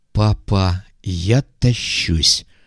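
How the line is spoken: Delighted drawl. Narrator (Russian): восторженно протянула Люська

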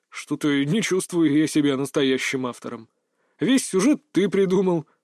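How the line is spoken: Embarrassed chuckle. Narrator (Russian): смущенно хохотнул он

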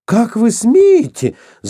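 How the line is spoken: Shouting. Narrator (Russian): закричала она

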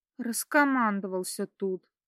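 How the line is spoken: Grumbling. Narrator (Russian): пробурчала Катя

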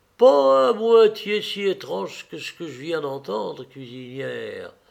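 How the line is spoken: Sepulchral voice. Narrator (French): ajouta Thomas d'une voix sépulcrale

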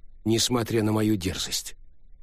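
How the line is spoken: Serious tone. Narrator (Russian): продолжил прежним серьезным тоном Винчи

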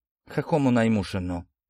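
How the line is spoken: Pharmacist's undertone. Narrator (Russian): вполголоса проронил аптекарь

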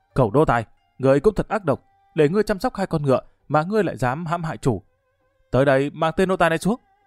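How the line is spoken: Furious shout. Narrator (Vietnamese): Tiểu vương gia cả giận quát

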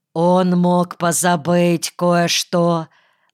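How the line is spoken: Gloomy hint. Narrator (Russian): мрачно намекнул дьяков

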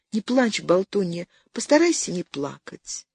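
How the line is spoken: Very quiet, muffled. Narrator (Russian): донеслось совсем тихо и глухо

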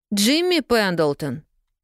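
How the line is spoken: Angry. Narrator (Russian): сердито Полианна

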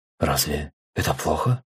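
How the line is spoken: Quiet, convinced. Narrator (Russian): негромко произнесла Мелинда, сверкая глазами и убежденно

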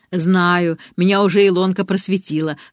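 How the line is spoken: Laughing. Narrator (Russian): хохотала Инна Львовна

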